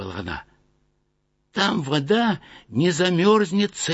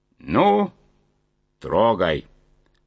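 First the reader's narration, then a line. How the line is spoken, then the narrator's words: Loud command. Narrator (Russian): громко скомандовал главный вожак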